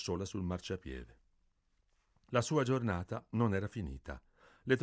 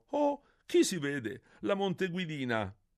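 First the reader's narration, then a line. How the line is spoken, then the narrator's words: Young man exclaiming. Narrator (Italian): Un giovanotto esclamò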